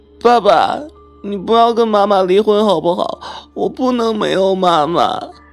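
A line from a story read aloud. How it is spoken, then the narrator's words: Little girl sobbing. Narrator (Chinese): 一个小女孩哭哭啼啼道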